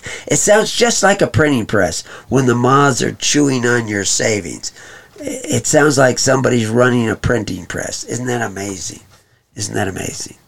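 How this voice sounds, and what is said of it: Sarcastic, facetious delivery. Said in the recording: “I'm being sarcastic here. Maybe even a little bit facetious.”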